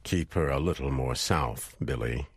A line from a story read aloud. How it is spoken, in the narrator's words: he said